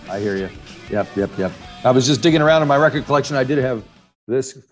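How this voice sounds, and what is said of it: American accent. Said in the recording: “You can tell my accent is American”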